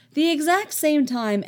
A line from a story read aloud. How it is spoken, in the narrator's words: Anakin asks eagerly